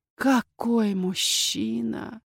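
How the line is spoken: Admiring whisper. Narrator (Russian): восхищенно прошептала Риена

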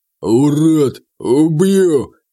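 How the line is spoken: Deep bass voice. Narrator (Russian): пробасил мой пэт

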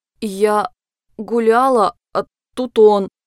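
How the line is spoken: Strained, sobbing young woman. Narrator (Russian): С трудом произнесла девушка и всхлипнула

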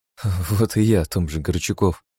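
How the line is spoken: Grim smirk. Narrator (Russian): мрачно усмехнулась Хельга

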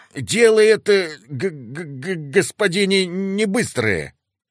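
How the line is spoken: Slight shaken stutter. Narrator (Russian): слегка заикаясь от пережитого, начал староста

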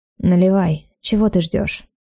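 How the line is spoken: Soft, slightly husky. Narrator (Russian): сказал мягким, чуть хриплым голосом

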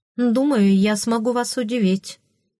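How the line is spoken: Snorting. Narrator (Russian): фыркнула

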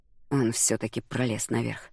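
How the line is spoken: Muttered. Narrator (Russian): пробормотал Федерико

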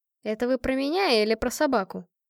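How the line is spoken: Sighing. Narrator (Russian): я вздохнула

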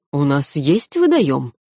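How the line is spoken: Authoritative, unyielding tone. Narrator (Russian): непререкаемым тоном заявил градомейстер

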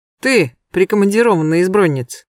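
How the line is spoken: Rude curt remark. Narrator (Russian): грубо бросил он Клавдию Мамонтову

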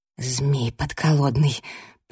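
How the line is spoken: Whisper. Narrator (Russian): прошептала я

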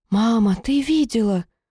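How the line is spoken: Astonished breathless exhale. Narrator (Russian): выдохнула поражённая черь

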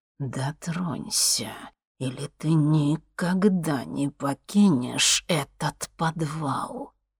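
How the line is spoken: Sudden hiss. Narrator (Russian): вдруг прошипел колдун

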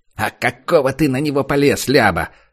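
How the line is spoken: Angry bandit asking. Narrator (Russian): зло зыркнув на него, спросил другой бандит

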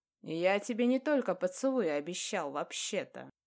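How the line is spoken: Smirking grunt. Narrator (Russian): хмыкнул Илья

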